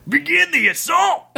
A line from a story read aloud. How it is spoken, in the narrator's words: yelled the head bandit